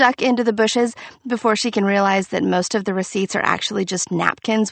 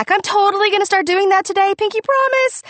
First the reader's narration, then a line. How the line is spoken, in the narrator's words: I scream back